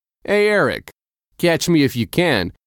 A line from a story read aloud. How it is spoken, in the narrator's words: Jonah shouted